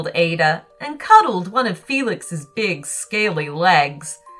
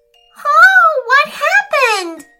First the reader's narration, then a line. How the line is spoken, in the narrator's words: screamed